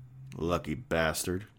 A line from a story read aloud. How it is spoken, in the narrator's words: muttered